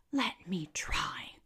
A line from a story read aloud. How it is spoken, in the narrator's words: cried E